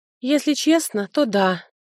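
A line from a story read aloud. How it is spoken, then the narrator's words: Wet nurse sighing. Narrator (Russian): вздохнула кормилица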